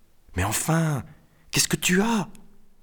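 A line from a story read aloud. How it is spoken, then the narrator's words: Whispering. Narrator (French): chuchota-t-il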